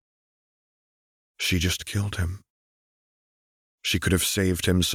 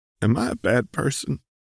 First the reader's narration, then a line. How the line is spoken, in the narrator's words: You croak